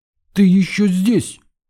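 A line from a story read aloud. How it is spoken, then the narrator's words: Exclamation. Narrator (Russian): воскликнула Тамара Ивановна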